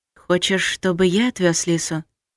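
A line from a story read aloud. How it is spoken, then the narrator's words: Quiet question. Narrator (Russian): тихо уточнил маг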